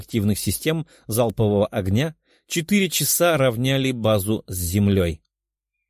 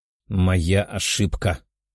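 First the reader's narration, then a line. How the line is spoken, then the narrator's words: Sigh. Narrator (Russian): вздохнул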